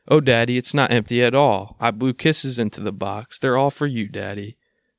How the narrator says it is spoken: The little girl with tears in her eyes cried

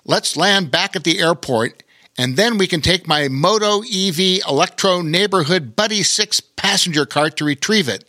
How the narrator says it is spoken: Pilot Patty called out

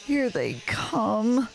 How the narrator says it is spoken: moaned Arthur

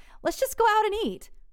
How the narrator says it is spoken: He kind of laughed, stammered

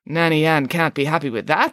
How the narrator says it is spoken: said Nanny Piggins

